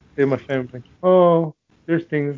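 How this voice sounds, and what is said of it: Bored flat imitated voice. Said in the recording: “He looked really bored as fuck in this trailer. He was like,”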